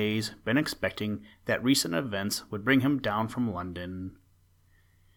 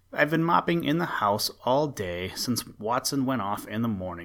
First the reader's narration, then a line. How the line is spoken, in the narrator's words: said the baronet